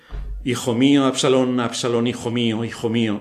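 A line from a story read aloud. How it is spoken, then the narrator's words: Loud voice. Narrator (Spanish): en alta voz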